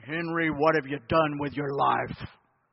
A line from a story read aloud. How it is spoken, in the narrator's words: God would speak with a deep, booming voice saying